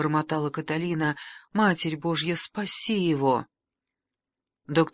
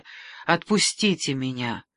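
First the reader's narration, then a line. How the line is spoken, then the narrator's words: Steady, unwavering voice. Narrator (Russian): Каталина недрогнувшим голосом сказала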